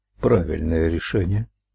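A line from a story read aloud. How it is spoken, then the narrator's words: Muttered. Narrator (Russian): пробормотал он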